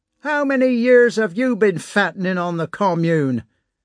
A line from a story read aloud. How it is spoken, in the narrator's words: Karp shouted at him